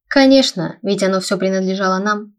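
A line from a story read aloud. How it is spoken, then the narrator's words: Smug snort. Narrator (Russian): самодовольно хмыкнул Аларикус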